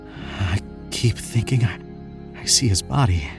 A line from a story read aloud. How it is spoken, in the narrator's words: Tim whispered that evening over dinner